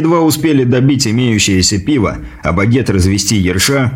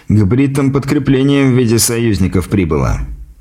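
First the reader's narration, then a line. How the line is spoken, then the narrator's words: Quiet remark. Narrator (Russian): тихо заметил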